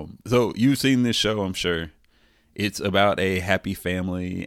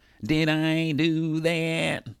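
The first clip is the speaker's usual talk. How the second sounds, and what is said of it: Imitates a nerdy sitcom character's voice. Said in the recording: “That's my impression of Steve Urkel.”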